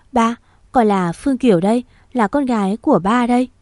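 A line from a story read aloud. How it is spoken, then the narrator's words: Trembling, holding back sobs. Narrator (Vietnamese): cô cố nén tiếng nước nở, mỉm cười, giọng nói run rẩy cất lên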